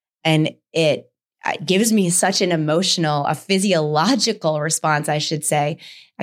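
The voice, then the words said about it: Choked-up, emotional voice. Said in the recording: “I can feel my throat getting choked up even when I say that”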